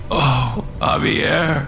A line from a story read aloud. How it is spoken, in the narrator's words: Alex whimpered